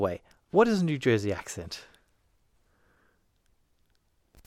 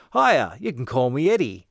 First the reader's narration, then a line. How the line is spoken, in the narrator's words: in a thick New Jersey accent said